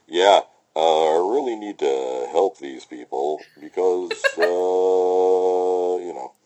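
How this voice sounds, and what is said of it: Muffled impression talking into a cup. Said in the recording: “my Eric Roberts impersonation, which is where I talk into my coffee cup”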